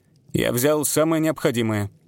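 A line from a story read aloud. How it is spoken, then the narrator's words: Grim, curt retort. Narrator (Russian): мрачно отрезал Питер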